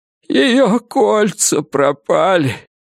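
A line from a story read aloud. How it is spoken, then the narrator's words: Tearful. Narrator (Russian): проговорил он сквозь слезы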